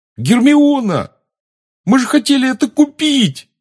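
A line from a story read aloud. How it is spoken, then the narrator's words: Yelling. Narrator (Russian): завопил Рон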